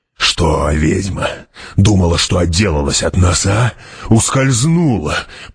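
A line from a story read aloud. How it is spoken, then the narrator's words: Growled. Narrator (Russian): прорычал Гурни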